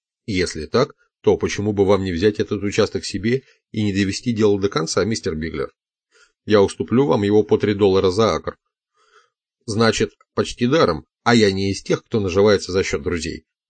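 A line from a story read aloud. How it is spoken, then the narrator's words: Plain. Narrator (Russian): ответил Биглер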